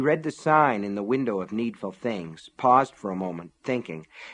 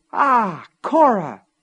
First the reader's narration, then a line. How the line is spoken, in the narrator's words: exclaimed